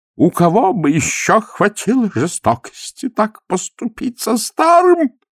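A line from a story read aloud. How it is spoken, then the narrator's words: Sobbing. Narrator (Russian): Он всхлипнул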